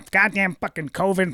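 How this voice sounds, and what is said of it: Adam Carolla impression. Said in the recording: “my Adam Carolla impression”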